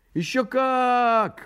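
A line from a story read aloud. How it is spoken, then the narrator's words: Rabbits exclaiming together. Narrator (Russian): воскликнули кролики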